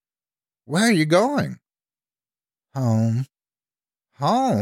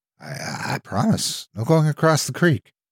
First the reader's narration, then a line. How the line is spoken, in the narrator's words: I said timidly